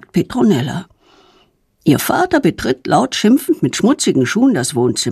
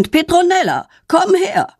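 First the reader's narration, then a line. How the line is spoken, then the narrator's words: Angry shout. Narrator (German): ruft wütend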